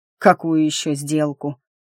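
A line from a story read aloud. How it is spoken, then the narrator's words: Grumbling. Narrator (Russian): проворчал природник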